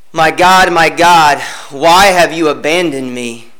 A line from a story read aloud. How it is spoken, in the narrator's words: I groan in prayer